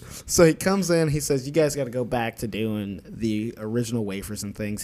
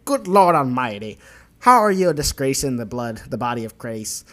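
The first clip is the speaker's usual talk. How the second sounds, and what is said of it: Put-on accent, admittedly weak. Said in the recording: “That's the best accent I can do. I'm sorry.”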